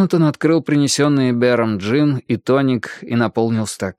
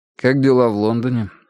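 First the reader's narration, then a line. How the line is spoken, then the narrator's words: Dry inquiry. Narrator (Russian): сухо поинтересовался он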